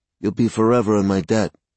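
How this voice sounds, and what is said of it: Bad Godfather impression. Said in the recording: “In a really bad impression of the Godfather”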